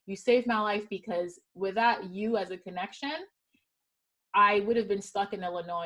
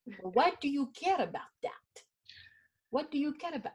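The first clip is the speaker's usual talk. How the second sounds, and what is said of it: Imitates another person's accent. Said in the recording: “I'm trying to do your accent.”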